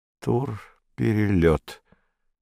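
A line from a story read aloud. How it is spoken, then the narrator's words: Slow, surprised. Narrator (Russian): медленно, словно удивляясь, проговорил незнакомец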